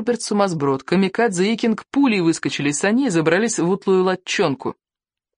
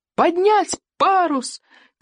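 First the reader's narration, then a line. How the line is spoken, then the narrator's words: Shouted. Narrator (Russian): крикнул Икинг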